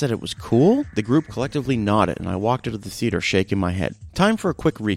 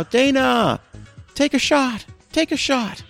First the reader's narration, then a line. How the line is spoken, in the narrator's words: the group yelled out